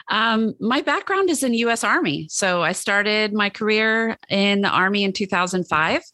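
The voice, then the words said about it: Hoarse voice. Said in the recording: “My voice is a little hoarse today.”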